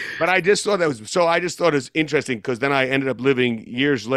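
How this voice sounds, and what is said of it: Usual voice. Nothing is said of it.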